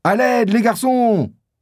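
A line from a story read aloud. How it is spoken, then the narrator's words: Boatswain shouting. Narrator (French): crie le maître d'équipage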